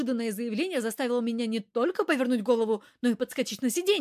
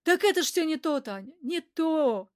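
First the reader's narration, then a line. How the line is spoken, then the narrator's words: Sad. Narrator (Russian): грустно Папазян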